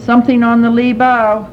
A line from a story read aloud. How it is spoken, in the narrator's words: shouted